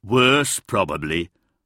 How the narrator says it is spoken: grumbled Trunk

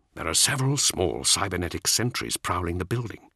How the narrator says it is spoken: Ascalon whispered

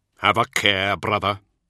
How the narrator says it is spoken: Luther growled

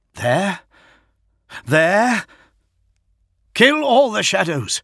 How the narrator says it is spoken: he roared

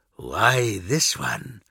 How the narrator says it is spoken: a voice asked softly from the shadows

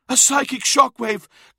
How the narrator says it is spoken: gasped Uthisar

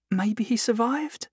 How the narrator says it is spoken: Belinda suggested weakly

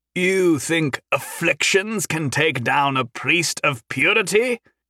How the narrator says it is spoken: Hendren called out

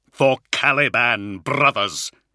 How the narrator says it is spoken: he cried, his voice echoing like a trumpet call over the cacophony of the ritual chamber

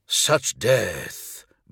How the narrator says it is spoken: breathed Skatarvar, horrified at the slaughter

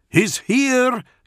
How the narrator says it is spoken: Gantulga roared at them

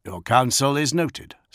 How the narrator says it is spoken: said Gilliman

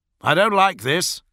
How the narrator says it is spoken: Solomon shouted

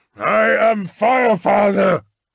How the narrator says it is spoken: yelled

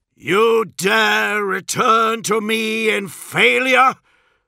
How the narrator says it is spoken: bellowed Horus, the bridge of the vengeful spirit shaking with the fury of his voice

